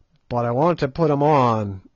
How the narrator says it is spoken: roared Good in nervous English

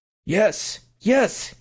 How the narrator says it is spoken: he cried

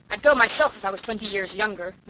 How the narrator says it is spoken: Norman Douglas was shouting

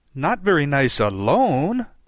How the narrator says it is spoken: he interrupted quite eagerly

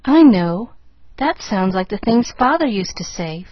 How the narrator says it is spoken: faltered Pollyanna, blinking off the tears

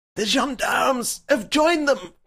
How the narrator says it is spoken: cried the professor

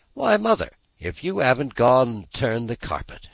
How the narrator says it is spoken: exclaimed, with something in her voice that spoke awe and admiration

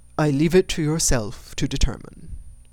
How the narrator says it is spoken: said Mr

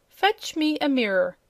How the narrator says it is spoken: cried Princess Cerulea

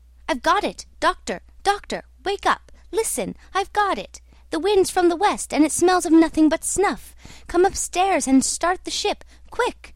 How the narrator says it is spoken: cried

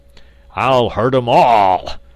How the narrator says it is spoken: roared the angry metal monarch

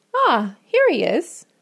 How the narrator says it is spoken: she exclaimed

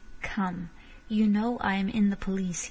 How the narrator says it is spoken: he said sharply

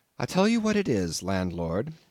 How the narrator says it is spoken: I said quite calmly

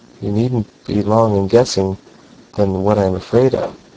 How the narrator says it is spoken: she continued in a bitter and somber murmur

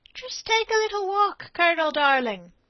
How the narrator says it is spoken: said a smooth, mocking voice behind him

